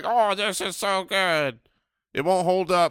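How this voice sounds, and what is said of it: Mocking impression of co-hosts. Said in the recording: “That is not a good impression. ... We don't sound anything like that.”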